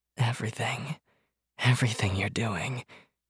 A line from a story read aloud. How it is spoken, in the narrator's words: she answered breathlessly